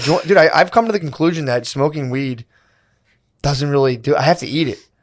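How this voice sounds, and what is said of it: Hoarse, partly lost voice. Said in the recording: “you sound like you're getting sick... I lost my voice because I was compulsively smoking marijuana cigarettes all weekend”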